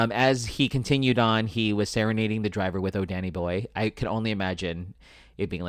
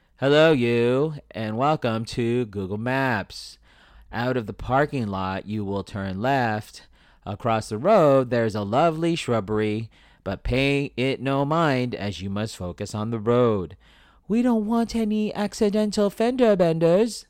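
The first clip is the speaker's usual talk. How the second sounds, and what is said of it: Moira Rose impression. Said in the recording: “That's my impression of Moira Rose.”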